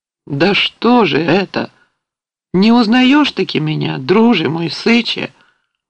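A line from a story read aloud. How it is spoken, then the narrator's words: Warm soft exclamation. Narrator (Russian): воскликнул мягким, приятным голосом старший казак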